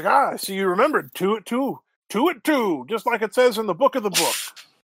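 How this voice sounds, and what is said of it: Strange put-on character accent. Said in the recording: “You'll have to pardon my accent, it gets stranger when it's early in the morning.”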